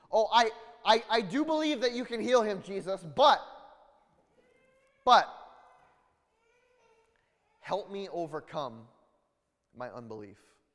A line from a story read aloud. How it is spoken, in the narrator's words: the boy's father exclaimed